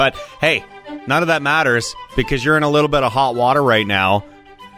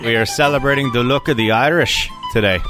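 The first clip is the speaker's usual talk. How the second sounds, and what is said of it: Weak put-on Irish accent. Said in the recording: “my weak attempt at a Irish accent.”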